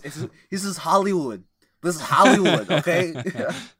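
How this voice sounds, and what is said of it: Imitates another person's voice. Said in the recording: “my best Arnold impression ... You sound like you're having a fit.”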